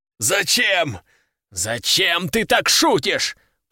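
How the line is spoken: Captain growling. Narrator (Russian): прорычал капитан

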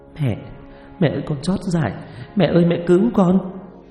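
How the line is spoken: Sobbing, pleading. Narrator (Vietnamese): thút thít van xin

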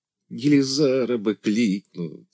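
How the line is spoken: Moaning. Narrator (Russian): стонал Дося

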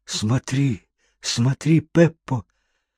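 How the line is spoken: Pale frightened whisper. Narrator (Russian): Паскуале, побледнев, зашептал мне

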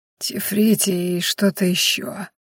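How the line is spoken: Hoarse rasp. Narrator (Russian): прохрипел Ахрелий

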